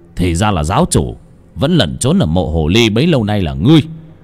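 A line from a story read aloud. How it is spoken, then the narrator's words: Loud voice. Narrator (Vietnamese): ông đội trưởng ông lớn tiếng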